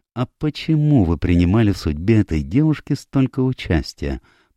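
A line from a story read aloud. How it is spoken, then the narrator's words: Gentle inquiry. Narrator (Russian): мягко поинтересовался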